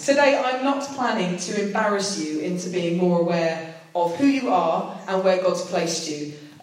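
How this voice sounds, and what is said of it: British accent. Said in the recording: “the only British person there, I'd definitely said enough to spot my accent”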